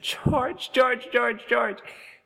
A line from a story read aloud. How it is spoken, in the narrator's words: you laughed and said